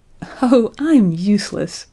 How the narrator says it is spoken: she cried, laughing

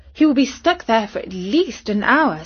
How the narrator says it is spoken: said her mum cheerfully

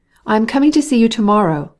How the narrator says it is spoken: cried Stepan Arkadyevitch

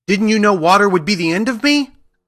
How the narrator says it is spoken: asked the witch in a wailing, despairing voice

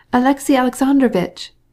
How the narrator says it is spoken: cried the Princess Betsy

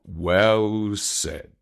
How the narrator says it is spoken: growled Baloo

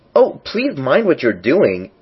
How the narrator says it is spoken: cried Alex, jumping up and down in agony of terror

